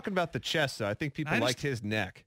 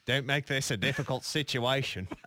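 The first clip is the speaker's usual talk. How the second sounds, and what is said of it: Poorly done put-on accent. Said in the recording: “That is such a terrible accent... Now it sounds British... It doesn't sound like anything. It just sounds like you pretending to be somebody you're not poorly.”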